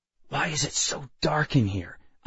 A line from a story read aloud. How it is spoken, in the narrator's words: I muttered